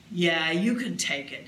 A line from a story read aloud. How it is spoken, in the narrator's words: said gruffly